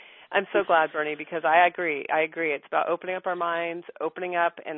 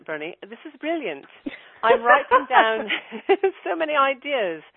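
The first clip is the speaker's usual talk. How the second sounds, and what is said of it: Put-on English accent. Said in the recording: “I should do that in an English accent”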